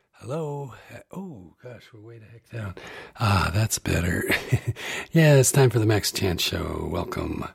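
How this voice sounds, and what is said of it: Slightly raspy voice. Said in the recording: “I have a little hay fever or something because my voice is a bit raspy, as you can tell.”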